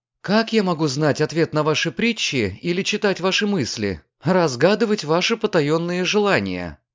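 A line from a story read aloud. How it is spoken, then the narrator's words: Half serious, half joyful. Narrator (Russian): проговорила Диана наполовину серьезно, наполовину радостно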